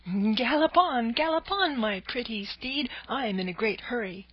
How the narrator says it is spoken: he cried out gaily

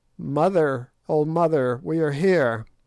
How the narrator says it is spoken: one of them cried out

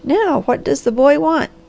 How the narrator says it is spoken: laughed a white-haired old woman

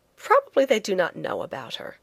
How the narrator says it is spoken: I said more cheerfully

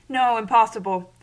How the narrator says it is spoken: said Prince Andrew, laughing

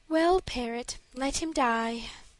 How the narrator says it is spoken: answered the princess with a sigh

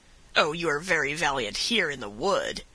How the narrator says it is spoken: cried the other, with a savage laugh

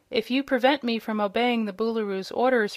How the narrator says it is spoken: returned the boy quietly

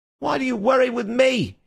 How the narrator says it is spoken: he cried

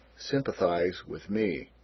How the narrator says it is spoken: gloomily

